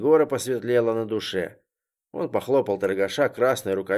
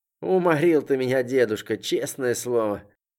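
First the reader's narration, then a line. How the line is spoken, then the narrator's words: Explaining after laughter. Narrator (Russian): И, отсмеявшись, пояснил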